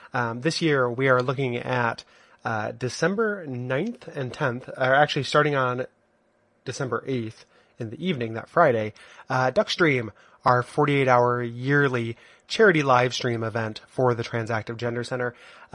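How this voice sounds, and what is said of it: Congested, stuffed-up cold voice. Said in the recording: “hear in my voice, I have a little bit of a cold. ... I'm stuffed up.”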